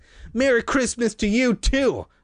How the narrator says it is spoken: I called bitterly

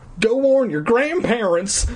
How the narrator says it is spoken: Styx cried

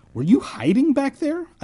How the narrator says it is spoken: I blurted out

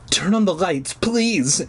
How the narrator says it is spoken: she pleaded

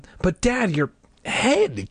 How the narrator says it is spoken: Casey stammered

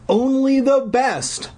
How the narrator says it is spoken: Buddy cried

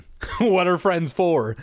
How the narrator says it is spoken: Sherry said sarcastically

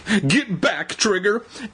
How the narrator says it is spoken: Evan pleaded

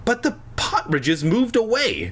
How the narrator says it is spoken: Fanny cried

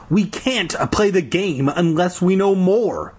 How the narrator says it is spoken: I shouted

